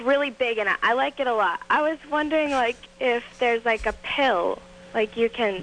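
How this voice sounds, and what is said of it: Boston accent. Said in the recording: “That Bostonian accent is unattractive, though... it's horrible... The Bostonian dialect.”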